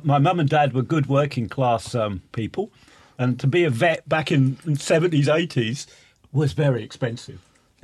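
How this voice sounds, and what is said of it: Norfolk English accent. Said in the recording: “hence my Norfolk accent.”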